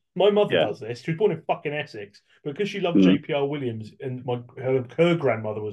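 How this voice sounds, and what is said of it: English accent. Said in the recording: “If you're like me and you have an English accent”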